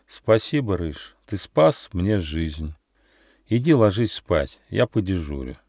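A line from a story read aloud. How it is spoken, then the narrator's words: Quiet, calmed down. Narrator (Russian): Когда Нюф успокоился, то тихо сказал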